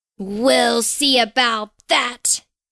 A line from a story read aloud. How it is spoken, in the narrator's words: cackled the gnome